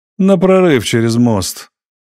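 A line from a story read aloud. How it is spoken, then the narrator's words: Said with a chuckle. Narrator (Russian): сказал Зев, хохотнув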